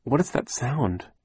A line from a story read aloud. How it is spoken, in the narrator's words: Violet asked nervously